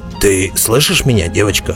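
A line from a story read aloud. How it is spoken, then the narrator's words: Growl. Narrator (Russian): прорычал Бреннер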